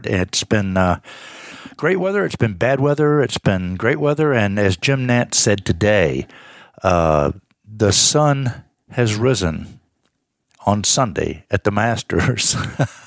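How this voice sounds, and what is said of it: Slightly hoarse, tired voice. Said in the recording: “as you can tell, I'm a little bit hoarse, a little bit tired.”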